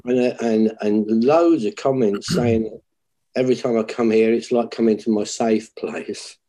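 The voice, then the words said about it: British accent. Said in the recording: “A lot of it is my accent. They love my accent. ... you're from the UK. You've got this cool accent.”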